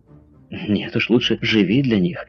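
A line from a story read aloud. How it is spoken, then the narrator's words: Young girl exclaiming. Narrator (Russian): воскликнула молодая девушка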